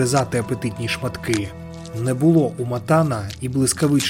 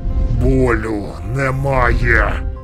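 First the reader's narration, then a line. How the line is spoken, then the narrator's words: Growled through clenched teeth. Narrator (Ukrainian): прогарчав крізь зціплені зуби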